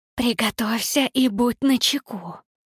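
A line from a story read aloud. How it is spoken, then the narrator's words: Hiss. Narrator (Russian): прошипела Никс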